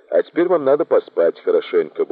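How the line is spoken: Cheerful. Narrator (Russian): бодро сказала она

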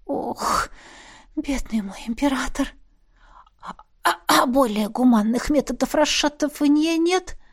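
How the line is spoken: Hoarse sleepy exhale. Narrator (Russian): Хрипло выдохнула, пытаясь окончательно проснуться

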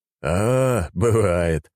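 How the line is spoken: Smirking grunt. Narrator (Russian): хмыкнул он

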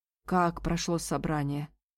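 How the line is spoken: Muttered. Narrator (Russian): пробормотал Бен

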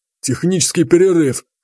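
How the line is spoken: Smirking snort. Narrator (Russian): хмыкнул лысый

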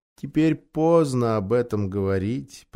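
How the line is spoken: Sad, quiet. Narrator (Russian): промолвил Фавн, грустно

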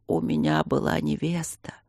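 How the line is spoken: Sympathetic creaky voice. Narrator (Russian): проскрипел, сочувствием

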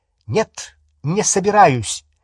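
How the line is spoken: Sharp reply. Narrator (Russian): резко ответила Гермиона

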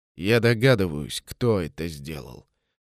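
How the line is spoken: Through gritted teeth. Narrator (Russian): процедил комендант

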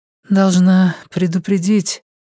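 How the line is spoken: Dejected, sinking voice. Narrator (Russian): упавшим голосом сказала Элиза

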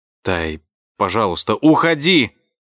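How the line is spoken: Shout. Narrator (Russian): крикнула

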